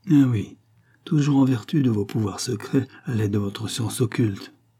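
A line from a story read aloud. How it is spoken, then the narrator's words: Murmured. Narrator (French): murmura-t-elle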